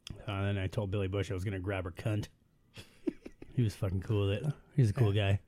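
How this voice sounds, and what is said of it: Imitates another person's voice. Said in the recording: “my Trump impression”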